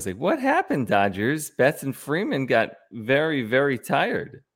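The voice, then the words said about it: Exaggerated baby voice. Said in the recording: “in a baby voice ... Give me a baby voice”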